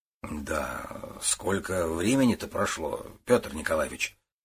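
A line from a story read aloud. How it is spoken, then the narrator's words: Muttering. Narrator (Russian): пробормотал Гуров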